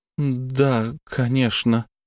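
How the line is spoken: Mutter. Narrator (Russian): пробормотала Марина

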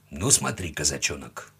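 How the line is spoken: Quiet. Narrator (Russian): тихо сказал Семен

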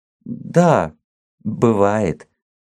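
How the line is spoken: Timid embarrassed mumble. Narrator (Russian): Цвет сконфузился, улыбнулся робко, промямлил

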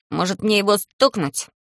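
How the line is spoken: Small angry voice, from behind. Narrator (Russian): злым голоском спрашивает за спиной Талм

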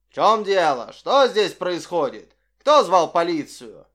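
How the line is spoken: Menacing question. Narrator (Russian): грозно спросил

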